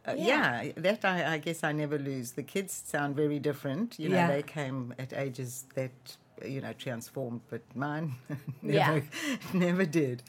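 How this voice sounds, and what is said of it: South African accent. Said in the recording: “So where's your accent from? ... Born and raised in South Africa. ... I like how you can hold on to the accent.”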